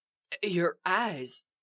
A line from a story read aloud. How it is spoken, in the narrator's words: said Eli, his voice shaking